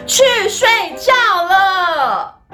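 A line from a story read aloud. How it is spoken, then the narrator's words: Shouting. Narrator (Chinese): 艾米丽大喊说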